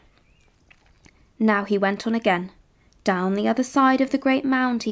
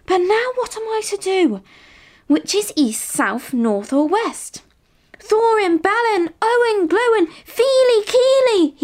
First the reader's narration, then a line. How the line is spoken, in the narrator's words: he cried as loud as he could